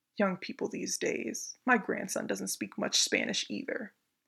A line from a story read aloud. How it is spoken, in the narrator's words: he started muttering to himself